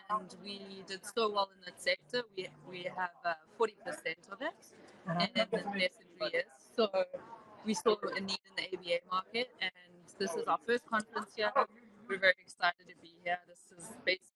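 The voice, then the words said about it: Australian accent. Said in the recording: “we're a tech startup from Australia ... that's what that accent is. I love it.”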